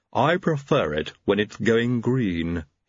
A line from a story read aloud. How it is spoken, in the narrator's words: he said haughtily